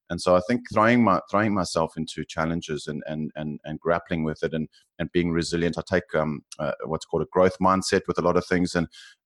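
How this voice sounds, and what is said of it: South African accent. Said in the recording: “you can probably tell from my accent, I'm South African, living in Australia”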